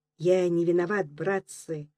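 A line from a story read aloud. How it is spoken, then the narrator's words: Involuntary whisper. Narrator (Russian): Сорвался невольный шепоток с губ Речкина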